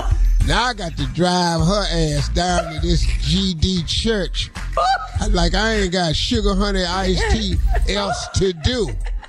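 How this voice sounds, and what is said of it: Imitates another person's voice. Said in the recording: “doing an imitation of my father”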